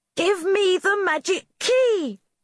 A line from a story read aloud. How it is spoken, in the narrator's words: shouted Rosie